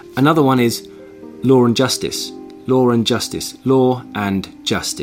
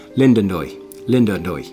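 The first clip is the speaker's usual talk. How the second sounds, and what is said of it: Put-on Dublin Irish accent. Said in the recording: “in Irish, and specifically in Dublin and Northern Dublin ... you wouldn't add the R, you'd say it differently”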